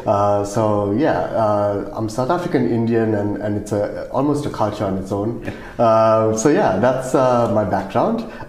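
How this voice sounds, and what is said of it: South African accent. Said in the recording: “I'm South African, if you can't tell by my accent.”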